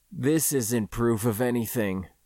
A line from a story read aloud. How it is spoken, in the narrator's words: he said quietly, in a tone that sounded like a confession